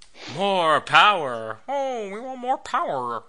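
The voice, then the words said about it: Kermit the Frog character voice. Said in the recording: “It sounds like Kermit the Frog ... Kermit the Frog playing Tim the Tool Man Taylor ... my Kermit the Frog impression of Kermit the Frog doing Tim the Tool Man Taylor”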